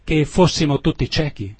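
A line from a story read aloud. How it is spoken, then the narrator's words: Exclaimed. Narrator (Italian): esclamò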